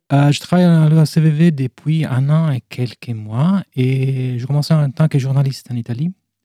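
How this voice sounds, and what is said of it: Slight Italian accent. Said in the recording (French): “j'ai un petit accent italien”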